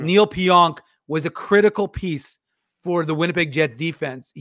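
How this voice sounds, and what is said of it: Imitates another person's voice. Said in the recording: “my best Harner Ryan sing impression ... I thought you were having a stroke”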